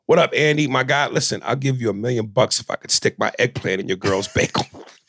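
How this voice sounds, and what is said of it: Imitates another person's voice. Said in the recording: “in your Aries Spears voice”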